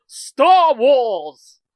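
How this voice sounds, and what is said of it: Dramatic movie announcer voice. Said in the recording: “Do I want to do the intro and the announcer voice again?”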